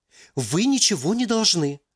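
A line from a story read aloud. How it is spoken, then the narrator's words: Somewhat frightened. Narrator (Russian): Как-то даже испуганно проговорил администратор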